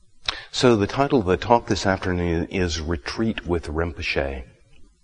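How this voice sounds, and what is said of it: Low voice from a cold. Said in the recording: “my voice is down in the lower registers today. I have a summer cold. So, if you can't hear me, just wave at me and I'll try to get my voice up.”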